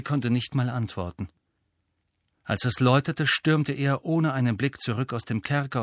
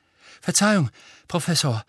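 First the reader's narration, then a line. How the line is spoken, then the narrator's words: Breathless gasp. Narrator (German): keuchte er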